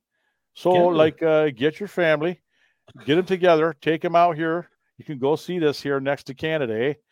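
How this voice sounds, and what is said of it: Attempted Canadian accent. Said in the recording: “You were attempting a Canadian accent. ... I was trying. I can't.”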